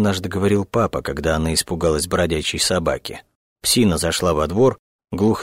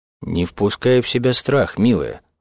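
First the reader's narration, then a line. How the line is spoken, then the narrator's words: Stern father's instruction. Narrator (Russian): строго внушал отец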